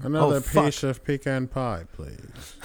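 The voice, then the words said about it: Bond-villain style character voice. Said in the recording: “You sounded like a Dr. No from James Bond.”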